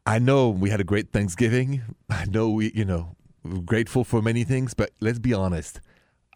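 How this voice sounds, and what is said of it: French accent in English. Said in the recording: “The accent is French.”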